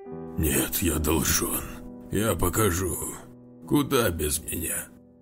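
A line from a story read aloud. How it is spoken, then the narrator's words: Hoarse straining wheeze. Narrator (Russian): хрипел, порываясь встать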